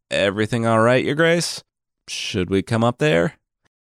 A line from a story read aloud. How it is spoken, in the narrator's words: From outside, below the window, one of the king's servants called out